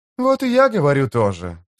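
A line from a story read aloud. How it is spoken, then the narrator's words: Cheerful. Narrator (Russian): сказала Фелисин-младшая, весело сверкая глазами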